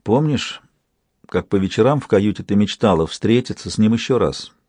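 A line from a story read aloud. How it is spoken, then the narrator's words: Quiet reminder. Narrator (Russian): тихо напомнила Янтарь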